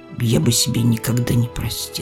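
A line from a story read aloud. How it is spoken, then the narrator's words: Mutter. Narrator (Russian): Николай буркнул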